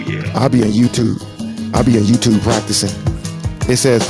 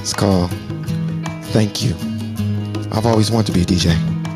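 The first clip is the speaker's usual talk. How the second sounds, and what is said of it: Fake radio DJ voice. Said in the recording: “my fake radio voice ... my DJ voice ... put your mouth closer to the mic and just try to talk from the stomach”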